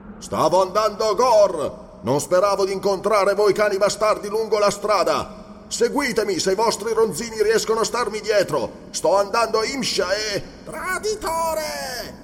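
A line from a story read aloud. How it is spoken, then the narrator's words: Shout. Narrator (Italian): Quel grido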